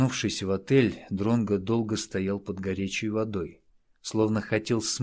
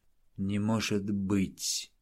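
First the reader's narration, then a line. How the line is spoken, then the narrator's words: Whisper. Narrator (Russian): прошептал Дронго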